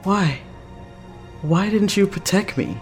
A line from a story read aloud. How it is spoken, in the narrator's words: Vincent whimpers out